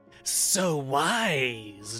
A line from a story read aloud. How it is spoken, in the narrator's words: the protean hisses